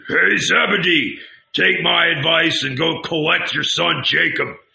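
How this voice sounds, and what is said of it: Hoarse, thundering shouted voice. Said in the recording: “the Redbeard's hoarse voice suddenly echoed ... Once more the voice thundered,”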